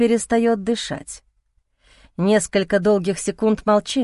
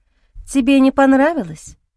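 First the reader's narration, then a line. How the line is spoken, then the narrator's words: Agitated whisper. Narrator (Russian): шепчет, взволнованно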